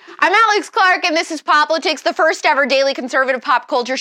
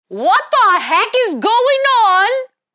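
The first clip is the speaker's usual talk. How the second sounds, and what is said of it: Attempted British accent. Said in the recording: “That is not a British accent. ... I can't do a British accent.”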